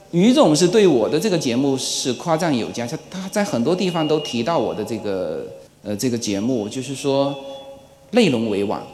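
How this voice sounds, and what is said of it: Regional accent, not standard Mandarin. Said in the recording (Chinese): “在此之前大家听到的都是字正腔圆的 ... 这种口音也能做这个节目”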